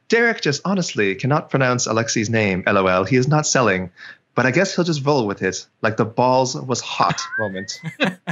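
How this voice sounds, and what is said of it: Classy put-on accent. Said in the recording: “I'll read this with an accent to class it up a little bit”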